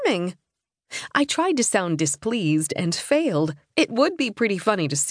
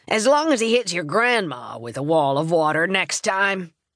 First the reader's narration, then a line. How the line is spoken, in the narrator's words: barked